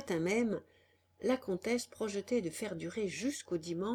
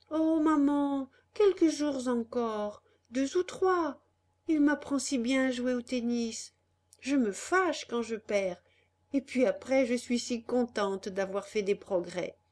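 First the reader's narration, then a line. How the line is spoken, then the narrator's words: Coaxing voice. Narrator (French): Alors Annette, d'une voix câline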